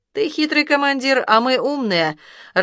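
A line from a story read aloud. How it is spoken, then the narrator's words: Laughing. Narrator (Russian): рассмеялся бандит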